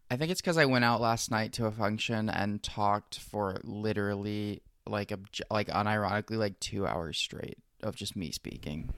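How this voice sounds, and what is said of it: Slightly scratchy voice. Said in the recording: “My voice is a little scratchy in this one.”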